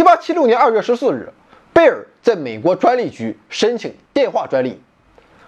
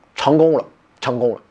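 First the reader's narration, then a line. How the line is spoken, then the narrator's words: Muttering to himself. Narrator (Chinese): 贝尔 只是喃喃自语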